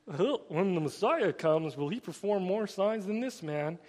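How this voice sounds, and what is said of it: Put-on yokel Southern accent. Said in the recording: “given these people that southern accent that is kind of the yokel kind of thing”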